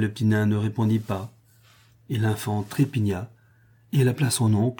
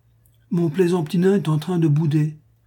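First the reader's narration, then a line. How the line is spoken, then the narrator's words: Exclaimed. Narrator (French): s'écria-t-elle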